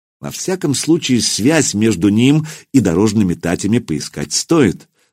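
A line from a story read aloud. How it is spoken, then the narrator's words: Plain. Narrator (Russian): сказал Духарев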